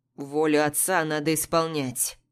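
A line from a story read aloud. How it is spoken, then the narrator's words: Through gritted teeth. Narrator (Russian): цедит Рус сквозь зубы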